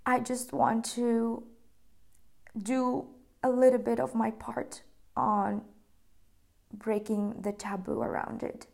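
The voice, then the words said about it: Emotional, choked-up voice. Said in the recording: “I'm getting emotional talking about it”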